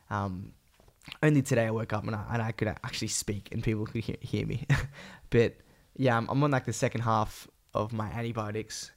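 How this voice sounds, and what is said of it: Sick, strained voice. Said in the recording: “I've been very sick. You can probably hear it in my voice. ... I had a really bad cough”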